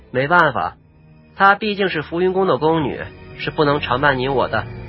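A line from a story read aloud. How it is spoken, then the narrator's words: Frowning sigh. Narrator (Chinese): 萧双灵皱眉叹回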